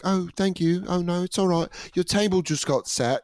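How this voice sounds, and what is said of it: Put-on British accent. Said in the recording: “this girl did a British accent”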